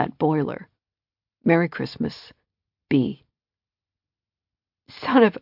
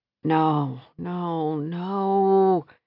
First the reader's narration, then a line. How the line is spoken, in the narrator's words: she groaned, with her eyes still closed